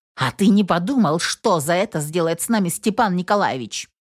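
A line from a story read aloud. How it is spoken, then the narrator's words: Angry question. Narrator (Russian): Зло спросила собеседника Инесс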